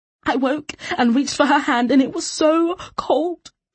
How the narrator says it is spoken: she sobbed

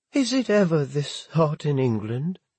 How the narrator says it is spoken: Elizabeth asked, her voice trembling as another echo of their father's fury reached what was left of the garden

